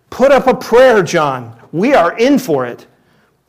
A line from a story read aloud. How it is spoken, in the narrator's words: one of them shouted out to the other